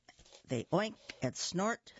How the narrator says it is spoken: they grunt with glee

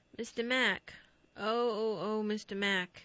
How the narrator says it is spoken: The boy's face was turned toward him, he called in a weak voice

